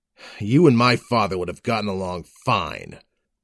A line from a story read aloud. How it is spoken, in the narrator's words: I snarled